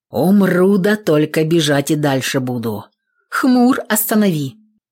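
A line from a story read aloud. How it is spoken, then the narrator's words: Expressive snort, exhale. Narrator (Russian): Мужик выразительно хмыкнул, но выдохнул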